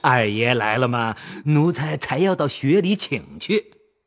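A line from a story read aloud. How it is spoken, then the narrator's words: Laughing. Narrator (Chinese): 李贵……笑道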